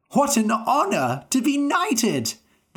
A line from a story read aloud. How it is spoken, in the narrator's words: cried